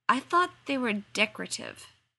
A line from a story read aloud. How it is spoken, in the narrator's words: Sam faltered